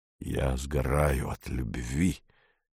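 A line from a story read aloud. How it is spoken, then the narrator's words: Guilty mumble. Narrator (Russian): виновато пробормотал он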